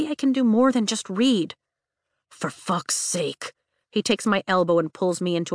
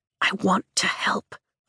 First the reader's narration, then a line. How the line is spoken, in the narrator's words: I whisper